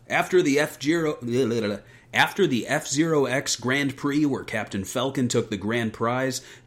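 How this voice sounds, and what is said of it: Dramatic announcer voice. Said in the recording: “read the story summary with your best announcer voice”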